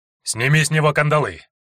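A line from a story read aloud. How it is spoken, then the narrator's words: Rough guard's command. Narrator (Russian): грубо скомандовал один стражник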